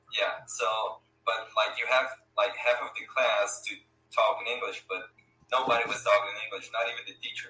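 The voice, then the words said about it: Brazilian Portuguese accent. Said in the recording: “you speak Portuguese Brazil. I could tell by your name and also by your accent.”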